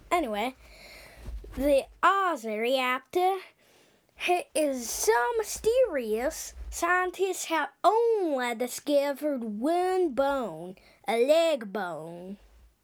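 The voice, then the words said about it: Put-on Australian accent. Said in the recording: “Just trying now to an Australian accent. ... I should stop my Australian accent.”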